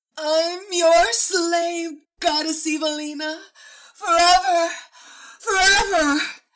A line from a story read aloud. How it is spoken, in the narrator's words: she screamed